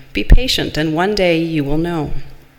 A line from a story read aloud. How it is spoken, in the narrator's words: His teacher replied gently